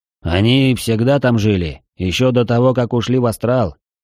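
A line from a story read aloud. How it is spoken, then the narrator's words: Snorted. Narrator (Russian): фыркнул Трайнул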